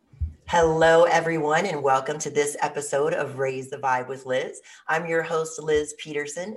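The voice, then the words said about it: Raspy, strained voice. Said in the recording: “please excuse my raspy voice today ... my voice hasn't quite recovered yet”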